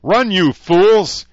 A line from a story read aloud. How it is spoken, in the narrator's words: he yelled